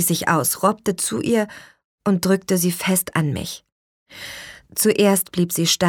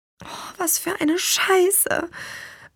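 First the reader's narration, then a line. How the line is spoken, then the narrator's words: Whisper. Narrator (German): flüsterte ich nur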